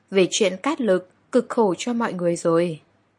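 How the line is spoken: Soft question. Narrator (Vietnamese): Lý Tuân khẽ hỏi

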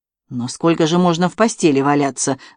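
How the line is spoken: Grumbling. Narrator (Russian): заворчал Филипп

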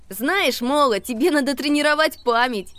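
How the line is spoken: Laughing. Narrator (Russian): рассмеялся Макси

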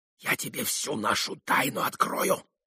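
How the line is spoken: Hurried whisper. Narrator (Russian): зашептал спеша Митя

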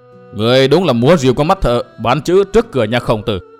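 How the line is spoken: Sneering laugh. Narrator (Vietnamese): Phác Ma Thiên cười khẩy nói

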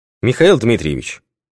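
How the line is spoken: Cold. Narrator (Russian): Холодно продолжила Елена Николаевна

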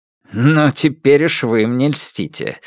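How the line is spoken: Cheerful laugh. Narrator (Russian): рассмеялся император, мигом позабыв о мрачном настрое

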